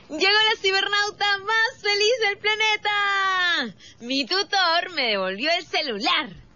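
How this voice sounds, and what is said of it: Shouting while speaking. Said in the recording (Spanish): “¿por qué gritas al hablar?”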